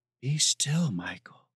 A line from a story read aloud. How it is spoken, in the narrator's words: she whispered in awe